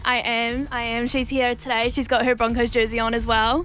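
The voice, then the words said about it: New Zealand accent. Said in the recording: “you have the Kiwi accent”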